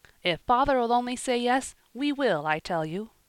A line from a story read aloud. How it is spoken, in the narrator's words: he responded eagerly